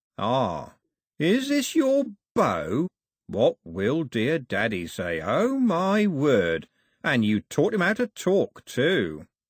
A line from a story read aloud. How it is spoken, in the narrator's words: Cox said, slowly and carefully